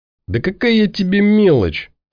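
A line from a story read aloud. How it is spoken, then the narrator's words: Mocking fearless laugh. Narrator (Russian): обидно и без тени страха в голосе рассмеялся Мазила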